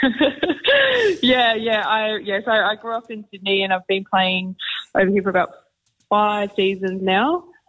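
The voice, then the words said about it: Australian accent. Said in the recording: “You're an Australian ... You can't hide your accent”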